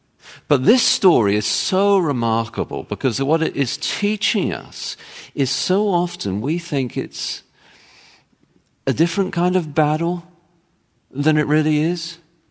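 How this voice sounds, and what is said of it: English accent. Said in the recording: “I have an English accent, and I say my T's differently for Americans”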